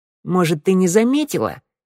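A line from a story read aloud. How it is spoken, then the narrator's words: Snide reply. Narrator (Russian): ехидно ответила Шныряла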